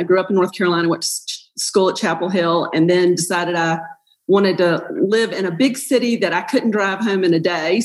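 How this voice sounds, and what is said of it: Persistent regional American accent. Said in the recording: “there is no excuse for this accent because I have lived everywhere. It won't leave me, though.”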